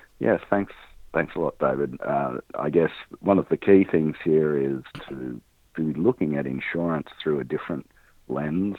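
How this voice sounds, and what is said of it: Australian accent. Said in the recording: “He's out of Australia, so that's not just the flu. It's actually an accent.”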